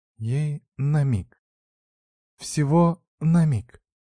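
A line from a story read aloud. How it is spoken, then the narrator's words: Hoarse. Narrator (Russian): говорит Ева хрипло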